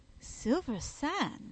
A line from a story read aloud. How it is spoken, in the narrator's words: I exclaimed